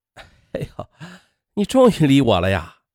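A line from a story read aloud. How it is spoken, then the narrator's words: Smug laughing. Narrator (Chinese): 他则得意的笑起来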